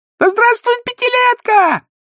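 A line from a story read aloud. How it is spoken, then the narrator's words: Thin funny child's shout. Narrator (Russian): пионерка из гремящего ключа тонким смешным голосом закричала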